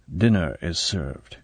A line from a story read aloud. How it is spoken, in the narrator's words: A voice behind Bond said quietly